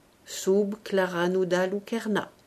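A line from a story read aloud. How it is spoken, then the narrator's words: Plain. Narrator (French): dit Horace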